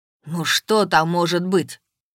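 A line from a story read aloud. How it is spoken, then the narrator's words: Irritated question. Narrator (Russian): раздраженно спросил Воронцов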